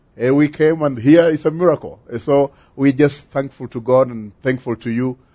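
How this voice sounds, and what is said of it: Speaks with a noticeable accent. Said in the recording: “if you don't understand my accent”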